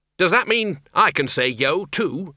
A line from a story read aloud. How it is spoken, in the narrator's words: said the Dean